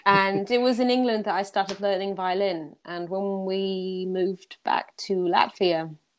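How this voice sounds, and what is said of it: English accent. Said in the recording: “I went to school in England, which is why I have this accent. ... Yeah, I can hear it.”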